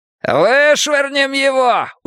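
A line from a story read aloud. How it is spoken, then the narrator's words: Shouting while laughing. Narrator (Russian): уже кричал Гартон, кричал и смеялся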